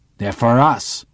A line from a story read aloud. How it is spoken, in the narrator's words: growls Dietering